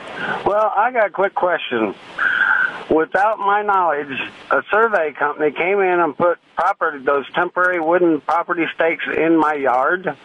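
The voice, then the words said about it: Missouri regional accent. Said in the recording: “I like the way you talk ... you sure got a High Ridge accent.”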